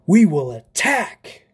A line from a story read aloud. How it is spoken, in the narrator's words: Lander ... shouted